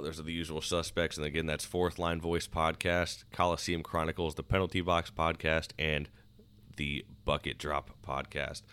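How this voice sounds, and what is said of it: Hoarse, strained voice. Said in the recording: “I'm losing my voice, like I said.”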